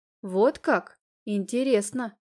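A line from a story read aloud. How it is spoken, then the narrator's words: Plain. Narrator (Russian): сказала я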